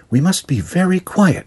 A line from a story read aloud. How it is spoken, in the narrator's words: whispered